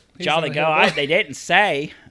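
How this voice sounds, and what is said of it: Attempted English accent, sounds Australian. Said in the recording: “I gotta do my English accent. ... I can't do an English accent. ... That was kind of Australian. ... that's more of Australian. ... Everything is like morphs into my redneck accent.”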